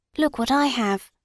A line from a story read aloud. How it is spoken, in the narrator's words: whispered Arnold